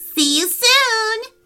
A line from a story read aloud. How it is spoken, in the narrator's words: cried the pixies